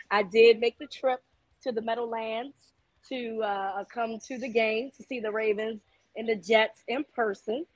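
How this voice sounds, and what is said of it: Hoarse, raspy voice. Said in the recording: “my voice is a little hoarse ... So I got a little raspy, smelly cat voice.”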